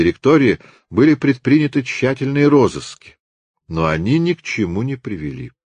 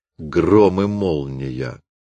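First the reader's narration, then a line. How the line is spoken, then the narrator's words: Grumbling. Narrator (Russian): проворчал Люпен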